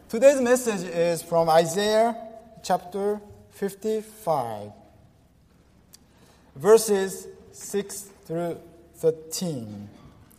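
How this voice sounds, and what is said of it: Japanese accent with some French accent. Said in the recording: “my English has been messed up, so you're going to have a hard time understanding my English ... not only Japanese accent, but some French accent.”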